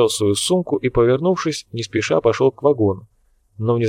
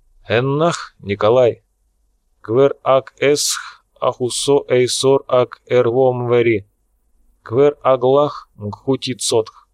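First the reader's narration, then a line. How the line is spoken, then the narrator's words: Slow, serious. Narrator (Russian): Фрол внезапно стал очень серьезным, медленно произнес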